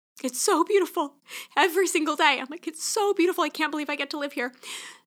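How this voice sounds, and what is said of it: Choked-up, emotional voice. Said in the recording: “I'm literally getting choked up.”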